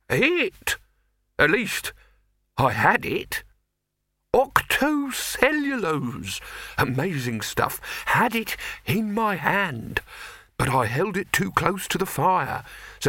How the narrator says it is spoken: said the figure in the perplexed tones of the nearly concussed

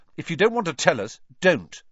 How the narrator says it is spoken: snapped Ron

